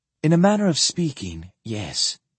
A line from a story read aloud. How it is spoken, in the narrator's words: she replied calmly